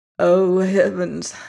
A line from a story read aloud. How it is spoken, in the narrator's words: murmured the sick man, smiling